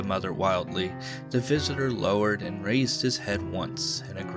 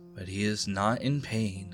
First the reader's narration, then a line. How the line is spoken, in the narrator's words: he said quietly